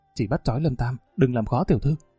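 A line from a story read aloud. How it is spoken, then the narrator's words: Whispered. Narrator (Vietnamese): Một kẻ dáng người nhỏ nhắn thì thầm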